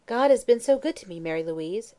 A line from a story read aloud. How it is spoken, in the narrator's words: she once exclaimed